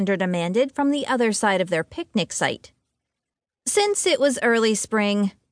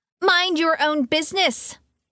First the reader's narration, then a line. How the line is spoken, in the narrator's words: Harper called out